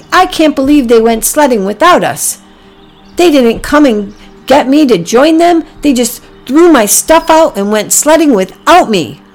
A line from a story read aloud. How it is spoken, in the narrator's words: Packy said angrily